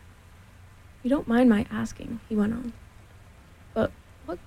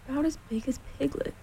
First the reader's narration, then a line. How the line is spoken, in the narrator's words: he said to himself sadly